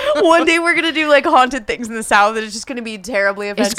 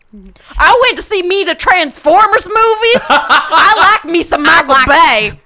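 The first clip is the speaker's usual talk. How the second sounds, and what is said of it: Exaggerated Southern US accent. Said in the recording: “Oh, I'm sorry to the South... It's going to be all bad accents... going to be all these accents.”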